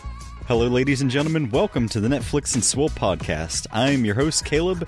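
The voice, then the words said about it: Rough, sick-sounding voice. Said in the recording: “my voice is just sonically the worst ... you're sick ... now I have a chest cold”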